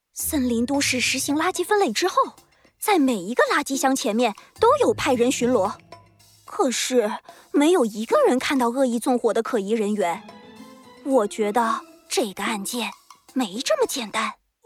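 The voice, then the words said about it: Lowered, hushed voice. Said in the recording (Chinese): “你小声点儿 ... 兔子警长压低了自己的声音，靠在弗兰熊的耳边”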